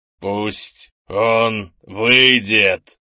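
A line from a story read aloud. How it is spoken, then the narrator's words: Growl. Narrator (Russian): прорычал Лекка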